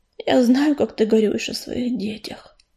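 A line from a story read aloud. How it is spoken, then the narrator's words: Quiet. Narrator (Russian): тихо произнес он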